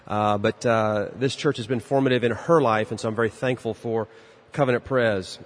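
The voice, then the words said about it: Texan accent from Dallas. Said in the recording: “she now lives in Dallas, where I'm from. That's where my accent comes from.”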